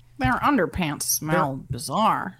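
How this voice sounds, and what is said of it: Confident Stanton Glantz impression. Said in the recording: “That was a solid Stanton Glantz just attempt. I appreciate the confidence that you gave that.”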